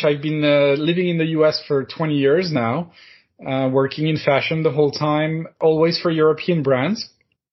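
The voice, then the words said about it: French accent in English. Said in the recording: “I'm French, as my name might suggest, and give it away, and my accent”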